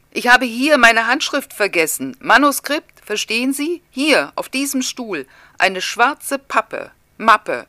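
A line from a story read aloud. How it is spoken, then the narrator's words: Agitated shouting. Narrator (German): schreit, der immer röter wird und stößt mit dem Stock auf den Boden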